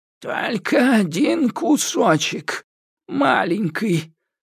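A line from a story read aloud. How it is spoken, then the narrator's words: Wheezed. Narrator (Russian): просипела Ига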